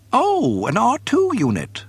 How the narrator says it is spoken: he chirped in delight

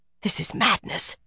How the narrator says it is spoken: Nisau muttered

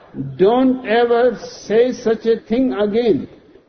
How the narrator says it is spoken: screams Solomon

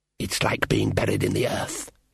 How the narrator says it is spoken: hissed the elf

